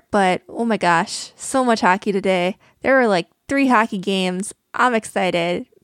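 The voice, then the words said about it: Canadian accent. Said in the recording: “my semi-Canadian accent ... Any attempt to tone down your Canadian accent was unsuccessful”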